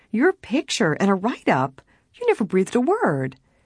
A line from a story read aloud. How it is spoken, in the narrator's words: Helen exclaimed